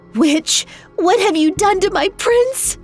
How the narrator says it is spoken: Zulvija cried

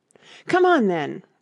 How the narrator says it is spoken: roared the Queen

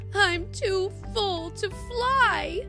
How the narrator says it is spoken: wailed the greedy bee

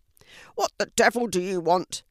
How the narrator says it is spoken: he shouted down to Fiona

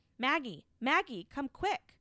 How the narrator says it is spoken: shouting up to her

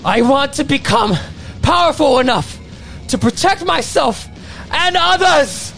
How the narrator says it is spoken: he yells out with newfound confidence

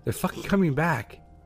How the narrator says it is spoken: repeated himself in a louder, panicked voice

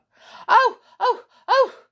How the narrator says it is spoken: gasped, his mouth full of salty water

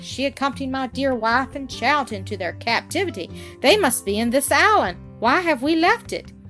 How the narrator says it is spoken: cried I

